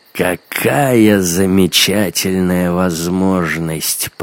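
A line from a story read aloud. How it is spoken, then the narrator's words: Drawl. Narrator (Russian): протянул он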